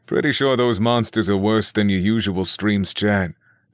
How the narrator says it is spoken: the archer remarked with a laugh

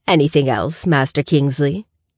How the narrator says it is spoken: she asks Grayson

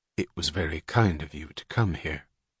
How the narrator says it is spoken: gravely courteous as she answered

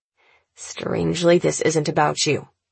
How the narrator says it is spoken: my brother replies, his voice sharp and dry

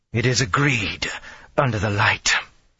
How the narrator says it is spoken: she growled

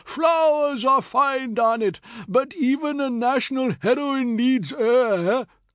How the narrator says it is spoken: he cried

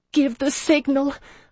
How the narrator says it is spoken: I begged him, desperate

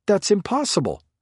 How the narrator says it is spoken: Forsyth blurted out

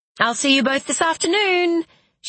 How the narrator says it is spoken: she cried

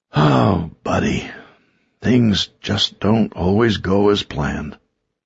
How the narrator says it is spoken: he sighed

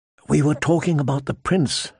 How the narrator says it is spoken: Sansa said, her voice soft as a kiss

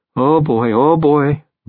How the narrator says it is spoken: Bob whimpers

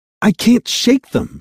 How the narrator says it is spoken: Sophia yelled, frustration in her voice

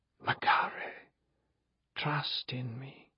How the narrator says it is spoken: I whispered in that old language

